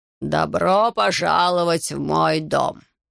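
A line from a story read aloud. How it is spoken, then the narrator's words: Deep, resonant voice. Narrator (Russian): произнес Мартиньюш глубоким, звучным голосом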